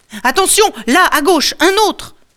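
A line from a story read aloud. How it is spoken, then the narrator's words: Guard yells. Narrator (French): hurle l'homme de garde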